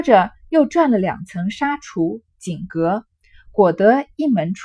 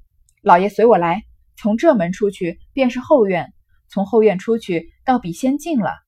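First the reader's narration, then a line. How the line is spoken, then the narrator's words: Laughing. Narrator (Chinese): 贾珍笑道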